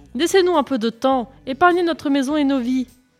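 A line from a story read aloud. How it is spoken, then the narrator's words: Woman shouting. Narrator (French): cria-t-elle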